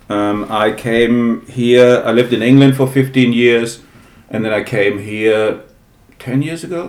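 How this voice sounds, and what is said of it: German accent, not New York. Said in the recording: “You're obviously not from New York ... this is not a New York accent. No, I'm German.”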